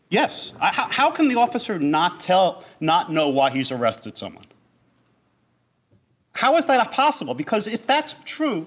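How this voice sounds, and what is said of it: Raised, agitated voice. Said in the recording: “You don't have to raise your voice. ... I'm a little excited”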